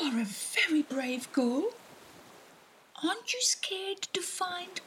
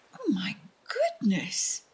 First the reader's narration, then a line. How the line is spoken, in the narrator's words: exclaimed the crab